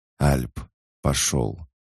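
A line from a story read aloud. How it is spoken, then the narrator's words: Whispered into radio. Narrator (Russian): прошептал Айван в микрофон рации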